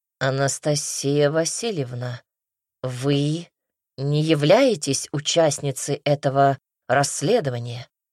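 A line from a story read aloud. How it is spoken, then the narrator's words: Gentle correction. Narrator (Russian): мягко поправил князь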